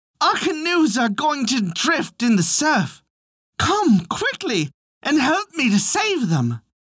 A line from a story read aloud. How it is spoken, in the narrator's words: he … cried loudly